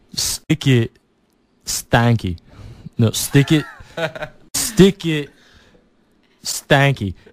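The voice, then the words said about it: Imitates another person's accent. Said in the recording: “I'm going to try to get the accent right”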